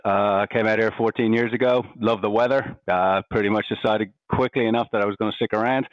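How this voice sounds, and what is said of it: Irish accent. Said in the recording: “I'm Irish. You can probably hear from my accent.”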